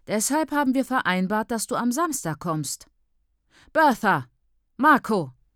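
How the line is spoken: Loud frustrated call. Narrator (German): ruft sie, ihre Stimme laut und frustriert, weil sie so oft rufen muss

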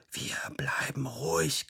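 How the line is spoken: Whispered. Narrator (German): geflüstert hat

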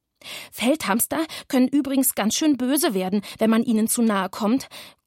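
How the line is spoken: Panting from behind. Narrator (German): keuchte er hinter mir

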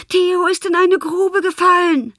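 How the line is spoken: Shouted from afar. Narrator (German): Lena schrie schon von Weitem

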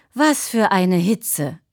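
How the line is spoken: Groaning. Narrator (German): stöhnte sie

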